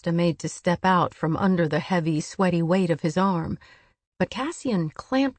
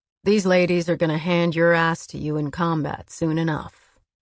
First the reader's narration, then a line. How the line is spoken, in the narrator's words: drawling to Rhys